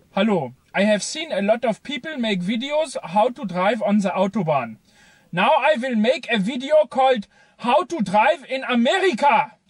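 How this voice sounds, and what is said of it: Very thick German accent. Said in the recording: “a German man describing, in a very thick German accent”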